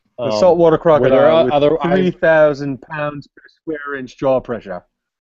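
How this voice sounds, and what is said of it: Put-on Australian accent. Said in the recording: “the only impression that you can do better than me ... Australian accent. It's good.”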